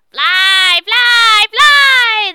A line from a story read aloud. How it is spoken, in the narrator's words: they shouted at me